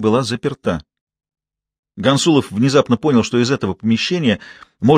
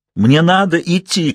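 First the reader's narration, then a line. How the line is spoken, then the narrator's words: Shouted. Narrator (Russian): крикнул он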